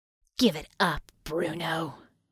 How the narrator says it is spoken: Harmony rasped

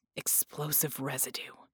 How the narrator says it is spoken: he muttered

